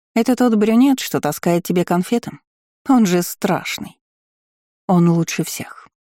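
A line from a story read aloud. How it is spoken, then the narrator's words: Calm reply. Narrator (Russian): спокойно ответила Агата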